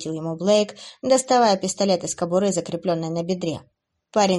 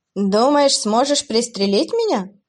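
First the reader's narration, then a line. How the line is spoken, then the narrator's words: Dismissive laughing demon. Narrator (Russian): рассмеялся демон, будто в него целились игрушкой, а не огнестрельным оружием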